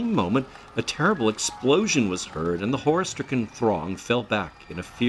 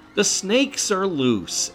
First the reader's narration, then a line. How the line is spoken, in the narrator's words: some person shouted